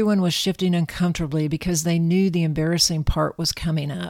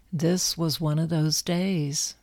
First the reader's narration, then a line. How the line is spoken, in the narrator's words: said softly